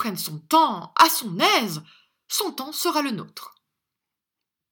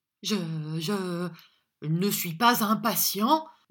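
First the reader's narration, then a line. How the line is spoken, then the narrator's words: Stammer. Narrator (French): balbutia Arthur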